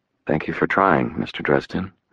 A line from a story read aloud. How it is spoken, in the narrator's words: she said quietly